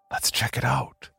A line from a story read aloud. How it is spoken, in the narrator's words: he whispered with a grin on his face